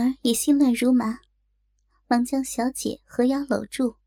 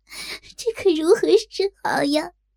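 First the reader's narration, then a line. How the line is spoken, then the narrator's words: Panicked, sobbing. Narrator (Chinese): 若真一时慌了，痛哭着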